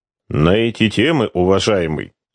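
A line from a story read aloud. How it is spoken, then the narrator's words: Grim retort. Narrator (Russian): мрачно парировал флотский чекист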